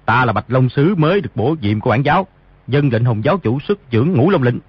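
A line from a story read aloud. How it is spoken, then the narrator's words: Lowered voice. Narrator (Vietnamese): hạ giọng nói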